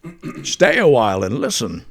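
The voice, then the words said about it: Deckard Cain impression. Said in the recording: “your impression of Bane sounds like Deckard Cain from Diablo”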